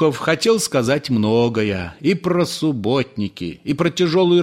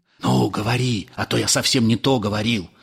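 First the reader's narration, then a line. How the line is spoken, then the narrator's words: Whisper. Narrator (Russian): добавил он шепотом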